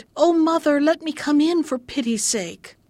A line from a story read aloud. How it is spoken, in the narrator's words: cried